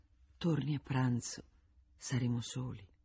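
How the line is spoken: Said quietly. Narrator (Italian): gli disse sottovoce

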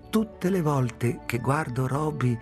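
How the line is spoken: Plain. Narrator (Italian): disse

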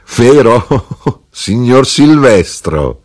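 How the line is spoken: Laughing. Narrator (Italian): ridendo, disse

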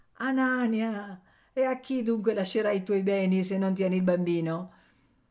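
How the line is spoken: Said laughing. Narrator (Italian): zio Pera diceva ridendo

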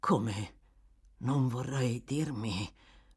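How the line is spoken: Murmuring, turning pale. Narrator (Italian): mormorò Toby impallidendo

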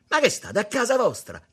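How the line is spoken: Entangled shouting. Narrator (Italian): gridò ancora infognato

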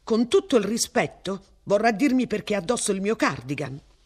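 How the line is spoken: Blurted out. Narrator (Italian): sbottò

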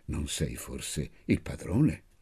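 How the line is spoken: Murmured in sleep. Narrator (Italian): nel sonno arrivò a mormorare

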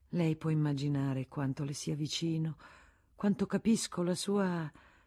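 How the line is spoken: Soothing, caressing voice. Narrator (Italian): Federico con voce carezzevole, come si fa con i malati

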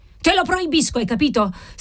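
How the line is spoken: Old man shrieks, exasperated. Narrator (Italian): strillò il vecchio marchese, così esasperato che le mani gli tremavano

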